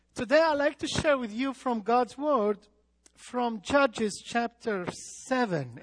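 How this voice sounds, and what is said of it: Speaks with a foreign accent. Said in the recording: “please forgive me about my accent. I will do my best that you understand.”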